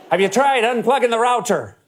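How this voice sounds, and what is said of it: Poor put-on Irish accent. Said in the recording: “doing a horrible Irish accent”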